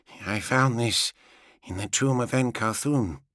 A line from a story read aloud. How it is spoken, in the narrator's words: said quietly